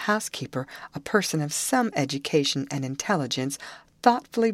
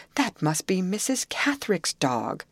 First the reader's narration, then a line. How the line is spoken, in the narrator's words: cried the housekeeper